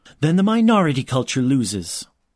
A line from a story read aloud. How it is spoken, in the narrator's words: his mother snapped, her control finally breaking